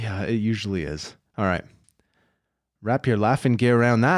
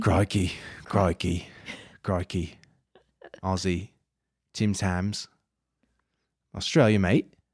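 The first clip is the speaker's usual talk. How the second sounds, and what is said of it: Put-on Australian accent, drifting English. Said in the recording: “Let me just hone in on my Aussie accent ... It's kind of lost somewhere in between England and Australia.”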